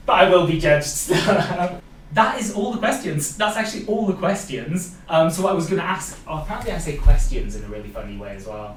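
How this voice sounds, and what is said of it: Welsh accent, crisply pronounced vowels. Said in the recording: “I think because I've got like my Welsh accent coming through. ... I say the E and the T and the I like quite pronounced.”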